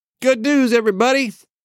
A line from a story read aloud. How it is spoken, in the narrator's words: cried Mr